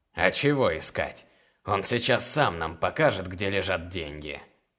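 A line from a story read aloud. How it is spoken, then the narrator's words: Snorting. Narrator (Russian): хмыкнул Дерес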